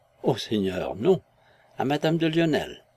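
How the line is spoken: Soft whistle. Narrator (French): Dubert siffla doucement

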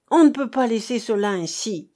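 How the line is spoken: Exclamation. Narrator (French): s'écria-t-il enfin

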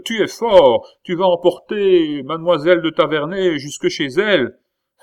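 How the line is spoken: Shouted. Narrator (French): cria-t-il

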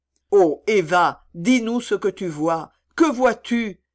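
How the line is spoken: Father exclaiming. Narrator (French): s'écria son père

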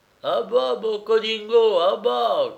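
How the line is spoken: Thunderous shout. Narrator (French): crie-t-il d'une voix de tonnerre

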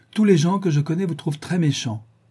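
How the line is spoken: Old woman exclaiming. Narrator (French): s'écria la vieille dame

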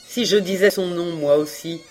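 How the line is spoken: Defensive stammering. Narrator (French): Reine balbutia, se défendant mal

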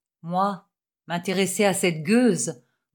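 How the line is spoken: Grumbling old sailor. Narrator (French): grommela le loup de mer

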